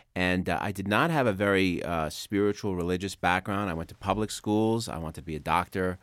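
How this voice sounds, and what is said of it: New York Brooklyn accent. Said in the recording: “I come from New York, mm-hmm. which your listeners will be able to immediately tell ... I'm actually from Brooklyn, so I try to keep the accent down a little bit.”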